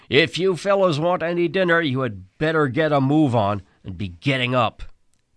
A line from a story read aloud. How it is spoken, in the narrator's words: our cook come through the dugout brandishing a ladle and yelling